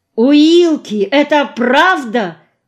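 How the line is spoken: Shocked shout. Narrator (Russian): крикнул потрясенный

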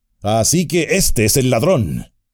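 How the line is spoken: Exclaimed. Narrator (Spanish): exclamó Gandalf

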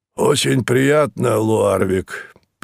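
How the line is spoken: Hoarse rasp. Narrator (Russian): прохрипел господин Мозес

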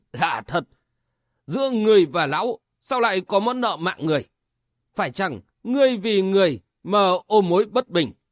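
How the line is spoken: Trembling voice. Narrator (Vietnamese): Diêu Thú tiên sinh giọng nói run run đáp

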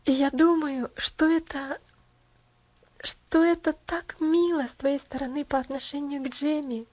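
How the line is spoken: Exclamation. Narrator (Russian): опять воскликнула миссис Керри

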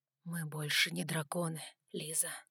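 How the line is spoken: Whispered. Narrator (Russian): прошептал он

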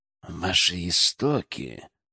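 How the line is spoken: Through gritted teeth. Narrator (Russian): Процедил Лукин

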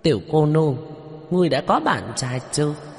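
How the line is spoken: Group laughing loudly. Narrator (Vietnamese): Bọn Hứa Đại Tráng cười lớn

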